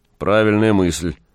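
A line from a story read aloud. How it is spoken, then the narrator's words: Sudden grumble. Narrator (Russian): пробурчал вдруг странник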